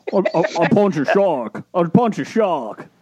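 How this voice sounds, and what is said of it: Bad imitation of another person's voice. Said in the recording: “ask him to do Jason Statham ... Jason Statham ... Bad. It's so bad.”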